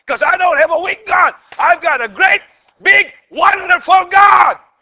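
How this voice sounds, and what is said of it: Excited shouting. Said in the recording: “I'm not shouting because I'm mad. I'm shouting because I really have a great, big, wonderful God. I'm excited... because I'm shouting”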